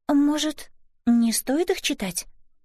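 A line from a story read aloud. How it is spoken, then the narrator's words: Hesitant suggestion. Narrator (Russian): неуверенно предложила Элис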